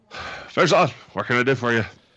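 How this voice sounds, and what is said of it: Put-on dwarven fantasy accent. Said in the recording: “a terrible dwarven accent”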